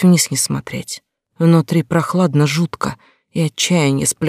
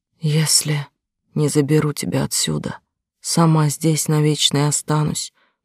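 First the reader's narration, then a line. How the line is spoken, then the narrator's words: Very quiet tearful whisper. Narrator (Russian): прошептала очень тихо, чувствуя, как слезы катятся по щекам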